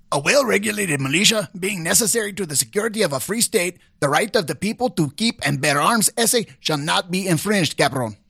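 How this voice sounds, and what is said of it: Comedic character voice with accent. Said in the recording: “using your best comedic voice, accent, whatever it happens to be ... pick a character ... Ricardo”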